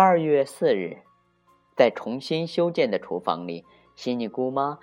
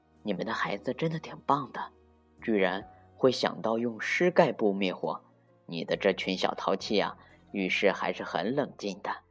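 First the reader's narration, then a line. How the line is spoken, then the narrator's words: Low voice. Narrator (Chinese): 他低声对布朗爸爸说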